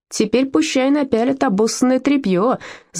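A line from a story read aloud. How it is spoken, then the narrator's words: Yelling girl. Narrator (Russian): завопила одна девчонка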